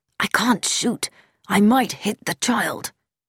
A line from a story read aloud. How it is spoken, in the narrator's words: Haydock whispered